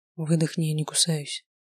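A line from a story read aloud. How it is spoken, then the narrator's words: Whispered. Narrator (Russian): шепнул Таир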